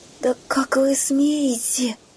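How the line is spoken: Hoarse. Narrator (Russian): прохрипела

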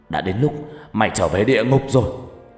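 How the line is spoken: Furious loud shout. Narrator (Vietnamese): Phát giận dữ quát lớn

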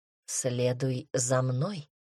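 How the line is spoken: Whisper. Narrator (Russian): шепнул он

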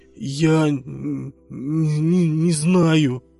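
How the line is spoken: Stammering. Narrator (Russian): заикаясь, ответила Тася

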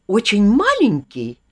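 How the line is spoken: Exclamation. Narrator (Russian): воскликнула мистрис Изи

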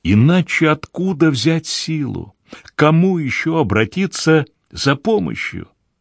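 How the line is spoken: On the verge of sobbing. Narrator (Russian): Снова подступили рыдания

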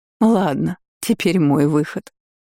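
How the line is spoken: Tearful speech. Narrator (Russian): Агата сквозь слезы сказала

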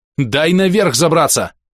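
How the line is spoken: Yelling back. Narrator (Russian): заорал я в ответ

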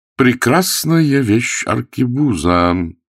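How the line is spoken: Slow, deliberate. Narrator (Russian): продолжал Карл, медленно выговаривая слова

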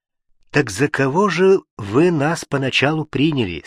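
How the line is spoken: Plain. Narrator (Russian): спросил он

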